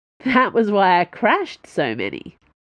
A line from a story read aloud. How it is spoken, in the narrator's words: laughed her mama